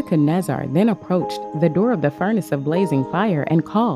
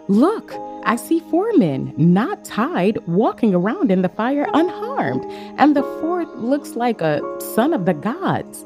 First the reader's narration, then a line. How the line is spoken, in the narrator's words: He exclaimed